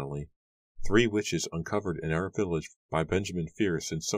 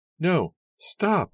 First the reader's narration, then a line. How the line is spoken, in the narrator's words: her mother cried